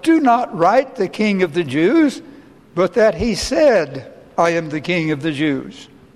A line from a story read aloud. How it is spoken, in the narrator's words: Pilate answered